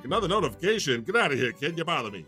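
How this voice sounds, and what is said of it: Old-timey 1930s-style talking voice. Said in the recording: “Oh, are you Jewish, God? ... That's my impersonation of the 30s. ... That's how they talk.”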